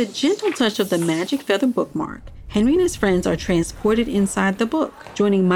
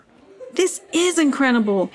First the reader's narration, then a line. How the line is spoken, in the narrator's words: Henry exclaimed with excitement